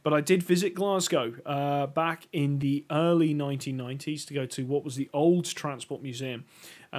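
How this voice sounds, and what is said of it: Northeast Scottish accent. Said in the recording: “I'm not actually from Glasgow. You can probably tell by the accent. I come from the northeast of Scotland. I come from Elgin.”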